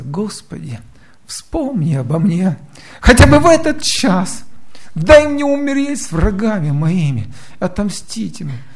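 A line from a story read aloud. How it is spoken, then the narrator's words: Fervent pleading prayer. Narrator (Russian): он взмолился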